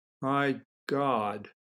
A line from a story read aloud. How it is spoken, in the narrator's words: McCall muttered